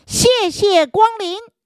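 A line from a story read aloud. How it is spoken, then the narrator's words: Loud shout. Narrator (Chinese): 大明大喊一声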